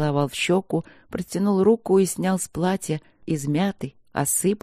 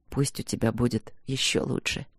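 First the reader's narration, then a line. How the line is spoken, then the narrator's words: Quiet. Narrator (Russian): произнес он тихо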